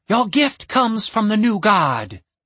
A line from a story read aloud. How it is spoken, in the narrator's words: the High Cleric said, smiling warmly at him